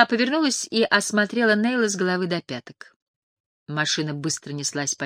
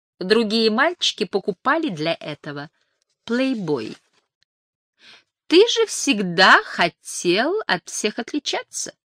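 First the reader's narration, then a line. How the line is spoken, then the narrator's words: Laughing. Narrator (Russian): рассмеялась Мэри Джейн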